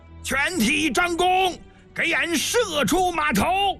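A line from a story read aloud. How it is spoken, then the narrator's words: Stern loud shout. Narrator (Chinese): 公孙喜厉声大喊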